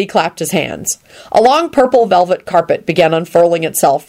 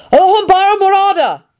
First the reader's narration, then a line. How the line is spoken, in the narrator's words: Neville shouted